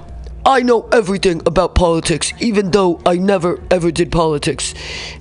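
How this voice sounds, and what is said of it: Impression of the American president. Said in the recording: “Was our president ... Let me do his voice.”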